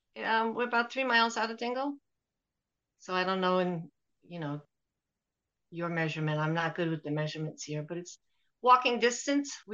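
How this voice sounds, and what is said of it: Non-local, non-Irish accent. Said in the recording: “you're not originally from Ventry, obviously, with an accent like yours”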